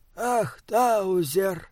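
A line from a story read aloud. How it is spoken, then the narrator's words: Sighing. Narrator (Russian): вздохнул он наконец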